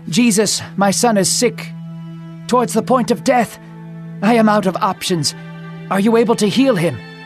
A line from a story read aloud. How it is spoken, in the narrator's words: Panting, the man gasped for words